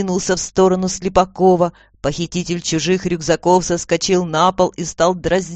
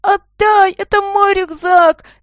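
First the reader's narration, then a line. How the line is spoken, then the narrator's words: Squeaky boy's wail. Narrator (Russian): Горженко, толстый мальчик, писклявым голосом завопил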